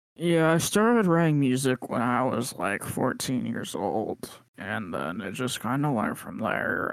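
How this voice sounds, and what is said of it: Imitates another person's voice. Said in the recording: “that's a pretty good Jordan Lely impression”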